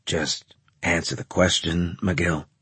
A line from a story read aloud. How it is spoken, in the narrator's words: Graves asked in a bored voice